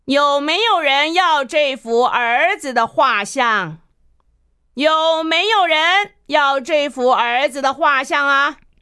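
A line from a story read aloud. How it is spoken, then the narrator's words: Loud shout. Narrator (Chinese): 他接着又高声地喊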